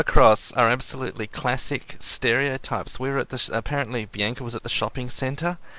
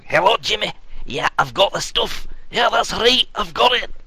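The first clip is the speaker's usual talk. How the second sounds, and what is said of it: Put-on stereotypical Scottish accent. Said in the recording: “Not to be overshadowed by the awesome accent.”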